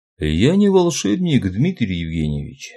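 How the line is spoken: Calm. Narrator (Russian): спокойно произнес господин Ра

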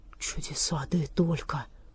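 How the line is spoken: Whisper. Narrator (Russian): прошептал

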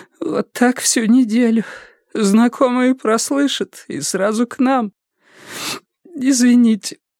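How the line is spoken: Sobbing. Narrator (Russian): всхлипнула

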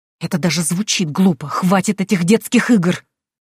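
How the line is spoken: Hissing. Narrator (Russian): Прошипела я

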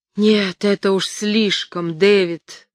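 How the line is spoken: Groaning. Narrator (Russian): простонал он

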